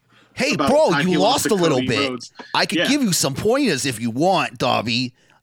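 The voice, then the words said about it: Imitates another person's voice. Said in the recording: “really good Taz impersonation”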